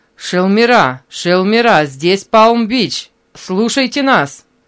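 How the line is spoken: Loud, clear, crackling headphones. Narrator (Russian): Послышался треск в наушниках, и затем он громко и ясно услышал голос Мэри

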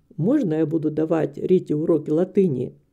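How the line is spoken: Quiet question. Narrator (Russian): тихо спросил мистер Дигби мать Риты

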